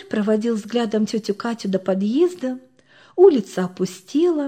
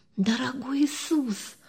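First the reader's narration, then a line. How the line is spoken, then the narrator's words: Whisper. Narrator (Russian): прошептала Оксанка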